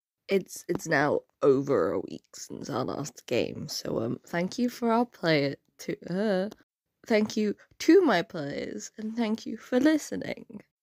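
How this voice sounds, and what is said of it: Sick, unwell-sounding voice. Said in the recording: “As you can probably tell by my voice, I have not been very well.”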